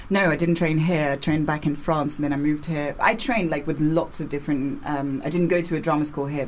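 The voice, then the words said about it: Near received pronunciation English accent. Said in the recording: “you're not completely, but you're borderline RP, like received pronunciation”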